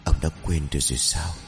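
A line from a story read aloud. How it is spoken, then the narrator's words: Whisper close to ear. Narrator (Vietnamese): Cái dáng người bí ẩn áp sát lỗ tai của lão rồi thì thầm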